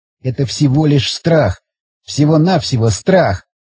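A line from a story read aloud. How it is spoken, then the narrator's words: Sighing, objecting. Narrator (Russian): Он вздохнул и тут же стал возражать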